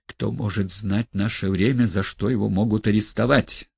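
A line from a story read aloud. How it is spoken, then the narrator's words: Mysterious mutter. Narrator (Russian): Загадочно пробормотал он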